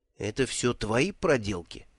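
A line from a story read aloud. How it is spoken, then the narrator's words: Whisper. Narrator (Russian): шепнул Бруто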